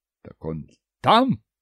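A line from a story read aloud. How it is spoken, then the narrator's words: Roaring. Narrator (Russian): взревел капитан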